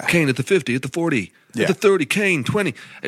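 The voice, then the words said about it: Put-on American sports commentator accent. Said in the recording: “such a convincing American accent.”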